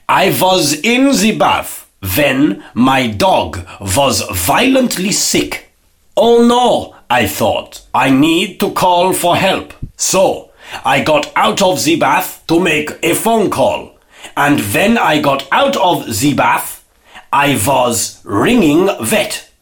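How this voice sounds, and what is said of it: Put-on accent for a joke. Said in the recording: “to do this joke properly, I have to put on an accent. ... So I had to put on an accent there”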